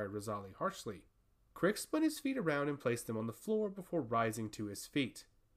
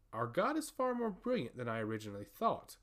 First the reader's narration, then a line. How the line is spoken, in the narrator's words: laughed Crix with a sinister smile